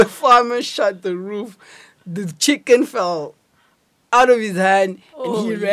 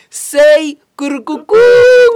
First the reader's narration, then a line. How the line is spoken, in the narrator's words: he shouted back